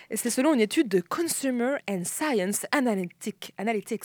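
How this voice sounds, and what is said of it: Put-on English accent. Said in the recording (French): “j'ai voulu prendre mon bon accent anglais”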